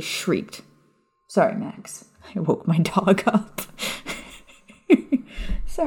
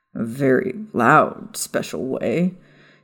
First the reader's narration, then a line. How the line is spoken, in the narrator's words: Sirius added with a chuckle